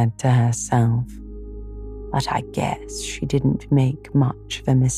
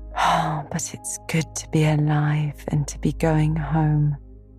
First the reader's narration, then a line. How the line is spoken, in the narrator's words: breathed Anne